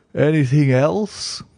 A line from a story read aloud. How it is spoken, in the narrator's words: asked Holmes, yawning